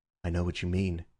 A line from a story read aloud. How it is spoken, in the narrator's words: said Syme in a low voice